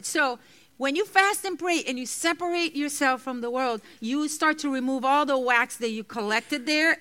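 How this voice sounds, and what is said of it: Speaks with a non-native accent. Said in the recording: “Sometimes I say year for ear. Excuse my accent. So sometimes it's hard for me to say certain words.”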